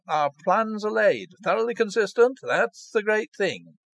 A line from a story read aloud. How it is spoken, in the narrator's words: cried the lawyer